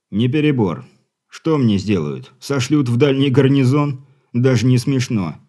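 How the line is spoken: Scoffing. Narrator (Russian): хмыкнул капитан Дивиш

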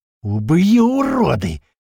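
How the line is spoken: Roaring. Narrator (Russian): взревел большой

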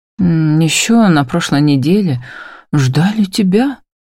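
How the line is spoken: Sighing. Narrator (Russian): вздыхает Эрнан

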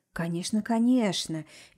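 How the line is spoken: Soft reply. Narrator (Russian): мягко ответил директор

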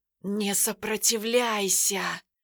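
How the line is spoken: Hissing. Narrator (Russian): прошипел колдун

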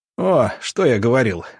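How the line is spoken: Laughing. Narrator (Russian): рассмеялся Александр Николаевич

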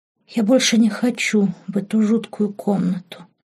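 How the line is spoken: Whisper. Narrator (Russian): прошептала она

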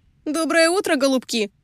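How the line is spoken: Shouted through window. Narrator (Russian): крикнула Лизи в открытое пассажирское окно

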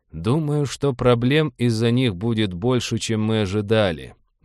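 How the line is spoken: Gloomy. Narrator (Russian): мрачно сказал Роджер

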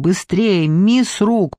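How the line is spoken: Shouting. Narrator (Russian): прокричал он

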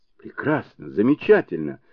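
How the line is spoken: Delighted exclamation. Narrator (Russian): восторженно воскликнул Сунь-Кун

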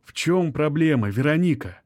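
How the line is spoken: Gentle question. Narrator (Russian): мягко спрашивает Анатолий

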